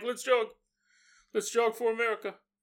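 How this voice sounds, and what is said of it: Poor imitation of another person's voice. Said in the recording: “worst Obama impression. I don't even know who's that supposed to be.”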